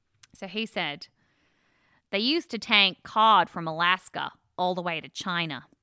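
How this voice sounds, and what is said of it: Imitates a rural American man's voice. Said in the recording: “he's just from the kind of outback in America. And so I'm going to do my best impersonation of Vince”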